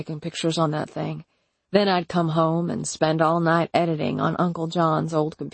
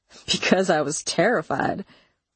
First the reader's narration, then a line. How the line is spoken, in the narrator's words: he said with a nervous chuckle